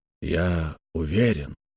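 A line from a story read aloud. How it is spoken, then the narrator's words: Quiet. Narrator (Russian): тихо сказал Адамс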